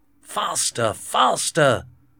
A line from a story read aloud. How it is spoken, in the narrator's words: D'Artagnan shouted to his horse